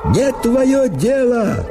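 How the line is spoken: Shouting. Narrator (Russian): Закричал

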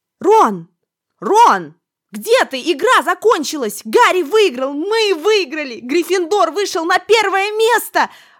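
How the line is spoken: Joyful yelling. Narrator (Russian): Радостно вопила Гермиона

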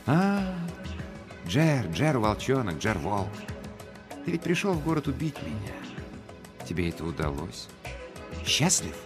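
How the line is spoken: Very quiet speech. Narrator (Russian): сказал, так тихо, что услышала лишь Кичкая

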